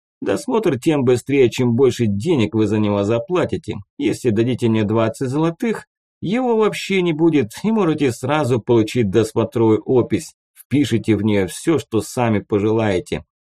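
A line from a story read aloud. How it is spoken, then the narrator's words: Plain. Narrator (Russian): ответил ему лоцман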